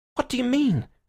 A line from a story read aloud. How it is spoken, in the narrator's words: cried the chaotic Gregory